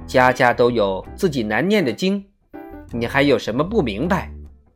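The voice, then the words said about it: Quiet, somewhat awkward speech. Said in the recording (Chinese): “有几分为难的小声说”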